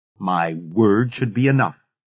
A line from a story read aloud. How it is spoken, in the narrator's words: Goddess Woman said